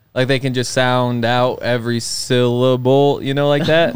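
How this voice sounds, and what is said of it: Slow drawn-out speech, almost Texan. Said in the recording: “Texas people can definitely say long words because they take so long to say them... That was almost an accent. That wasn't supposed to be an accent. That was supposed to be talking slow.”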